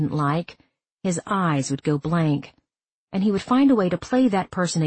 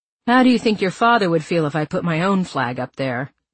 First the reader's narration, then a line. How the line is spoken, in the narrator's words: I laughed